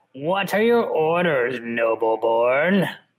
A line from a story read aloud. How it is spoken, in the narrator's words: said her voice was stringy